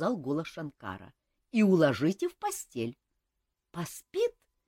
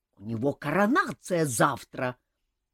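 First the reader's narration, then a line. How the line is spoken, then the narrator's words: Roar. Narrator (Russian): проревел Элмар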